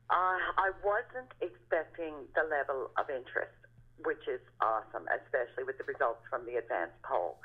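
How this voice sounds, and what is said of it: Slightly hoarse, less clear voice. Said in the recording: “My voice is usually much clearer than this, but I'm getting a bit hoarse.”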